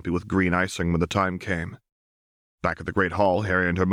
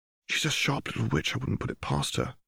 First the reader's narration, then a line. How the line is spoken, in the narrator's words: replied Hermione softly